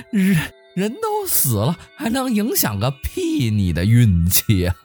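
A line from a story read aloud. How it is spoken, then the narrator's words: Loud laughter. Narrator (Chinese): 王二大笑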